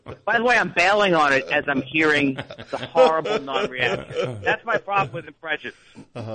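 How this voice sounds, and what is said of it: Usual voice. Nothing is said of it.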